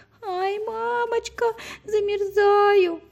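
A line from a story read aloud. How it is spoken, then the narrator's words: Screaming, then crying. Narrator (Russian): закричала Женя и стала плакать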